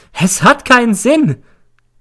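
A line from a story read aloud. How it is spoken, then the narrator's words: Shrieking. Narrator (German): kreischt sie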